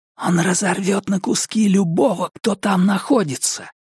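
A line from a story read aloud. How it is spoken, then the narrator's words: Whispering. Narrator (Russian): прошептал я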